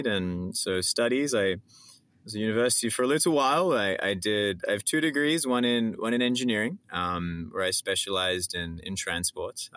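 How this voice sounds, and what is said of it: Australian accent. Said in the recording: “as you can maybe tell from my accent, I'm originally from Australia”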